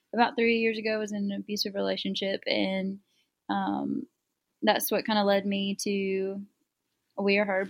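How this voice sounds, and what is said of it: South Carolina Southern accent. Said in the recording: “Greenville, South Carolina. ... You can kind of hear it in your accent”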